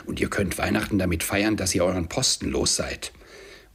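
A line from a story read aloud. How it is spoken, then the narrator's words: Growl. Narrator (German): knurrte Scrooge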